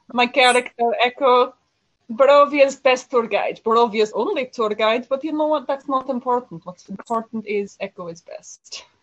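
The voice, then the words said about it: Character voice with put-on Barovian accent. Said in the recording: “the official traditional Barovian accent from Dungeons and Dragons ... She did this accent”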